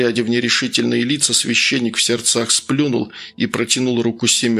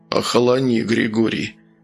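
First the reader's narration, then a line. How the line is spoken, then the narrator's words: Calm restraining tone. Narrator (Russian): спокойно остановил его Архип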